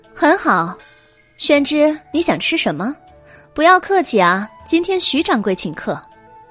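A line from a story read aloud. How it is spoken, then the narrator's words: Laughing. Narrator (Chinese): 白姬笑道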